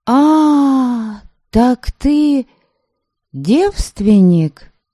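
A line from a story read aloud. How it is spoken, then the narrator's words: Knowing drawl. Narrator (Russian): Понятливо протянула я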